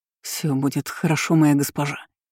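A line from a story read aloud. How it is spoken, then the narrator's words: Whisper. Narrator (Russian): зашептал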